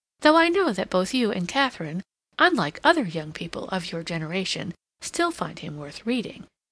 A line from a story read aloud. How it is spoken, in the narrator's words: Hilbery continued with a little laugh